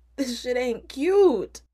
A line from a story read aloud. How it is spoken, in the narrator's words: exclaims